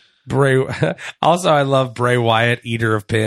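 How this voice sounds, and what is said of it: Usual voice. Nothing is said of it.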